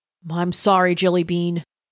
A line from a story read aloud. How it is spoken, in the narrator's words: he said, his voice thick